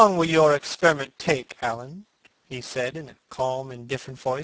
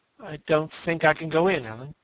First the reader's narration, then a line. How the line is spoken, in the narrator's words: he murmured